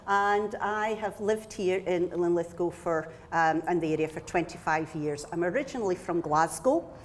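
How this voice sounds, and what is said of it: Scottish accent. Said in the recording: “I'm Scottish, as you can hear from my accent.”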